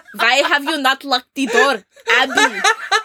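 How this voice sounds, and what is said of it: Bad put-on German accent. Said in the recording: “I should do a German accent ... That's just the, the bad German accent.”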